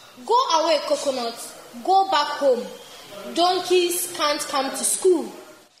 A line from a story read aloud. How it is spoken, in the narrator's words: Clapper, the teacher, shouts